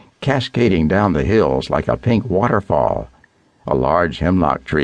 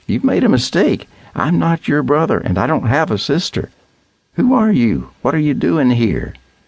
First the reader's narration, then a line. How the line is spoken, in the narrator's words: The woman laughing